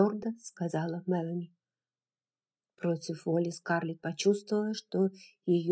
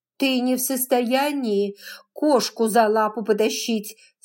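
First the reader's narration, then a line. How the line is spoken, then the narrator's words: Angry. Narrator (Russian): сердито сказала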